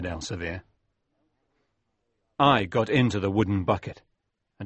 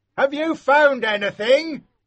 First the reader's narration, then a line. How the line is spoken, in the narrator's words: the man shouted